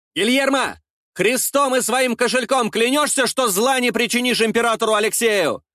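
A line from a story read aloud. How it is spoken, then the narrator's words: Shouting out a window. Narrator (Russian): выкрикнул я в окно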